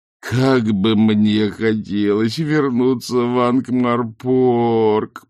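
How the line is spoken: Groaning. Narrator (Russian): простонал Ринсвинд

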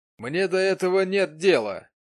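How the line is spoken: Rude objection. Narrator (Russian): грубо возразил аукционист

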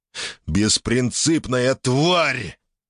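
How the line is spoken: Loud growling. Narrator (Russian): рычал он в голос

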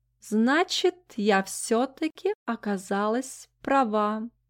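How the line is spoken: Contented purr. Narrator (Russian): довольно мурлыкнула амфорная кошка

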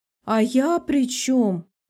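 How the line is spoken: Shrill squeal. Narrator (Russian): взвизгивает Лика

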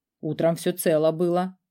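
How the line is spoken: Necromancer's wry snort. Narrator (Russian): хмыкнул некромант

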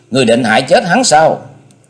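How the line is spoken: Angry question. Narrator (Vietnamese): Cô tức giận hỏi

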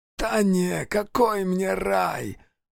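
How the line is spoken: Hoarse wheeze, thin man. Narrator (Russian): прохрипел сухощавый

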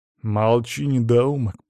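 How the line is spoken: Growl. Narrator (Russian): прорычал Аристарх

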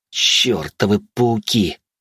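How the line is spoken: Growling. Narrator (Russian): прорычал я

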